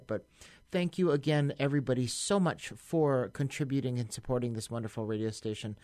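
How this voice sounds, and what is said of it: Tired, worn-out voice. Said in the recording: “if you can hear it in my voice, I'm still pretty tired and beat up by it”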